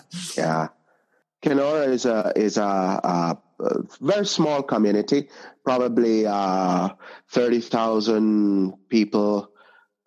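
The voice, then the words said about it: Non-Canadian accent. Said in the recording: “people hearing your accent are going to know that that you're not actually from Kenora from Canada”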